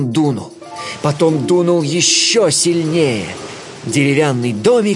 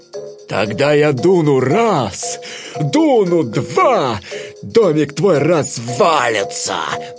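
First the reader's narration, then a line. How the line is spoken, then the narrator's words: Menacing growl. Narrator (Russian): прорычал злой серый волк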